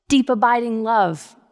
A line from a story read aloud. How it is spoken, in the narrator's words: we shouted back